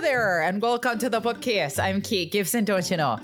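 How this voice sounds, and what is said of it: Put-on mixed Fargo Midwest accent. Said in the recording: “doing her Fargo accent... That was like a combination of like Finn, Fargo, Scotland. There was some Ireland in there... Midwest voice”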